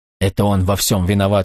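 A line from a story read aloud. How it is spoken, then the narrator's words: Hoarse wheeze. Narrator (Russian): снова прохрипел агент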